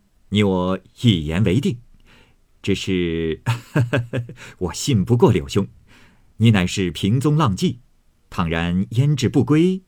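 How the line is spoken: Laughing. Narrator (Chinese): 贾琏笑道

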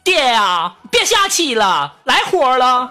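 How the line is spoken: Calling out. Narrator (Chinese): 那女司机就冲着旁边喊

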